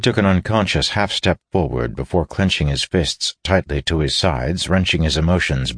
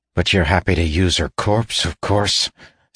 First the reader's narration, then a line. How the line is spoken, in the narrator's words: spat Davian